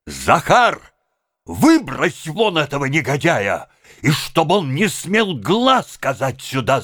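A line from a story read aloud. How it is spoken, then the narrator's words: Shouting. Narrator (Russian): закричал Обломов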